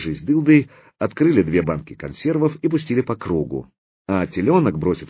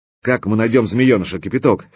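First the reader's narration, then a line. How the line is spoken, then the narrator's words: Angry question. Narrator (Russian): сердито спросил Мировой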